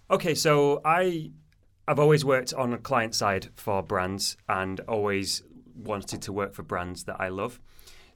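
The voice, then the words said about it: Manchester English accent. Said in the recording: “I'm from Manchester originally, as you can probably tell by my accent”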